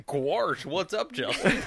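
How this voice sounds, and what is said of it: Cartoon character voice. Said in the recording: “You're right, Goofy.”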